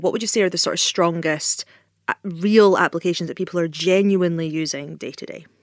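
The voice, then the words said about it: Scottish accent. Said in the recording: “all the years with the Scottish accent, things don't tend to listen to me”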